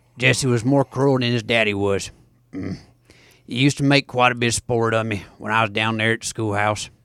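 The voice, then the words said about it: Raspy rural storyteller voice. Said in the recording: “if you take out the raspiness, it kind of sounds like it's like a Pruitt accent”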